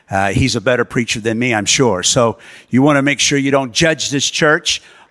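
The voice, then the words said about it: American accent. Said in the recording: “we're um, originally from the U.S. Uh, so excuse the accent. ... my Americanisms”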